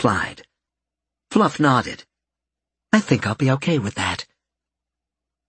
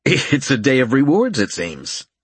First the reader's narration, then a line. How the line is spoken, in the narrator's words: he chuckled